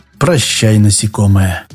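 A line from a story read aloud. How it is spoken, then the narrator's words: Peaceful whisper. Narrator (Russian): умиротворенно прошептал Шорохов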